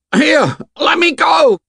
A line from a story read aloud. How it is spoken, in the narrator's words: His voice rose to a shriek of terror